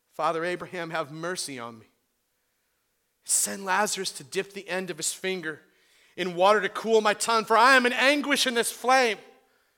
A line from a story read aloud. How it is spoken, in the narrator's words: He cries out